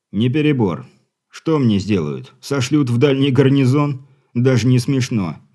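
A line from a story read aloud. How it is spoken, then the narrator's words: Snort. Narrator (Russian): хмыкнул капитан Дивиш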